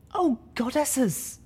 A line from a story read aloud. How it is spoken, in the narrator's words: Velvet Remedy whimpered